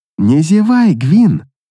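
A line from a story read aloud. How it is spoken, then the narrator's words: Purring. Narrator (Russian): промурлыкала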